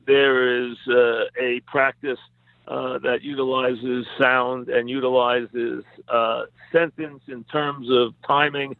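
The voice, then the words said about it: New York accent. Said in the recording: “I've never tried to lose my New York accent. I've never felt that I must enunciate every letter”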